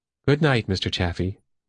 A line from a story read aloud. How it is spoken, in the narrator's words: Myra said